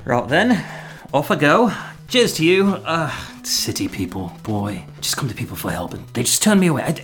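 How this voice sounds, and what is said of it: Put-on accent. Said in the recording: “Is it the accent?”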